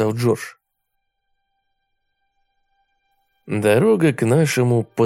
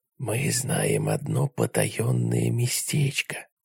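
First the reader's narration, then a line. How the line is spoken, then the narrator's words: Whisper. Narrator (Russian): прошептал я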